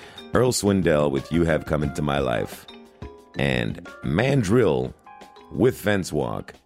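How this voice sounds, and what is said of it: Usual voice. Nothing is said of it.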